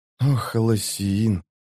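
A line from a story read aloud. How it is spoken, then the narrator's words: Tearful mutter. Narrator (Russian): пробормотала она, когда на глаза навернулись слезы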